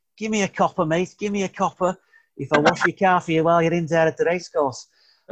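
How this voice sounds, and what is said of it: Bad put-on Scouse accent. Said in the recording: “Terrible scout impression,”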